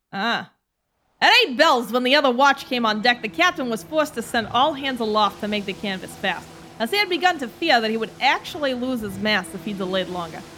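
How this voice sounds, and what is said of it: Put-on mixed Boston-New York accent. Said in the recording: “Do a good old Boston fisherman ... This is more New York ... we have the confused Boston, New York accent”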